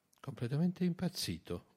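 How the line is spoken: Murmured. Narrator (Italian): mormorò Dagenham

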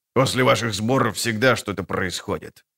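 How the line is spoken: Grumbling. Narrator (Russian): буркнул банкир

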